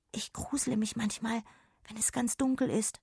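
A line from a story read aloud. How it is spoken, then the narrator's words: Whispered. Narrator (German): flüsterte Jonna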